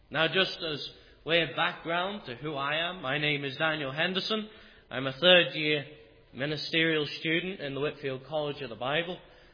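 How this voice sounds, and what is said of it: English accent, Liverpool and Yorkshire mix. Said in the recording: “my strange accent that I am not an Ulsterman ... I am an Englishman. And I'm originally from Liverpool, then moved over to Yorkshire, and I have a mixture of accents”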